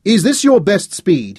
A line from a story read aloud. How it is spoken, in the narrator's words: he shouted in the wind and the pounding of the hooves